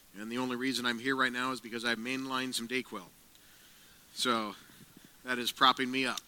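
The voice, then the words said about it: Sick, under-the-weather voice. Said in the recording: “my voice is a little different... under the weather”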